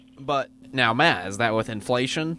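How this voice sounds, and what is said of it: Put-on nerdy voice. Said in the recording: “That's my nerd voice.”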